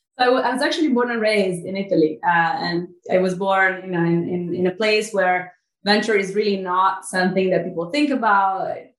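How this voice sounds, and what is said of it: Italian accent. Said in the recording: “you'll notice my accent, which I've been trying to get rid of for 35 years, but failed. I'm Italian. I know I don't hide it too well. ... It's beautiful.”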